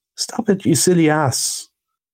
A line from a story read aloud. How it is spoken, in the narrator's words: cried the rat from the bottom of the boat